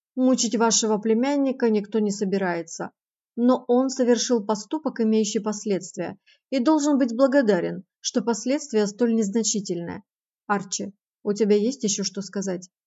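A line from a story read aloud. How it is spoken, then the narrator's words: Pointed sigh. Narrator (Russian): демонстративно вздохнул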